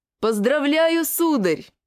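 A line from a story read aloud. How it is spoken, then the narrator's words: Yelling pudgy little man. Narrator (Russian): завопил пузатый напомаженный человечек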